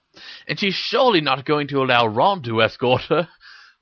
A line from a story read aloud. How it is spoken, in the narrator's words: laughed Dean